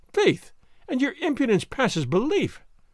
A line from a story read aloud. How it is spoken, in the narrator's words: she said merrily